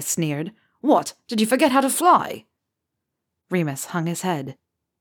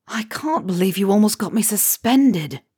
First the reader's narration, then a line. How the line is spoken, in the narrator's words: James moaned, voice muffled from between his hands